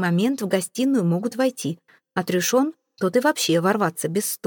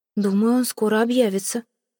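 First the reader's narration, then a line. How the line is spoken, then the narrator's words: Wistful sigh. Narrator (Russian): вздохнула Эйвейн, жалея, что поцелуй прервался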